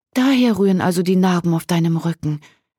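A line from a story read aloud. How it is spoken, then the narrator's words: Calling out. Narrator (German): rief Margarete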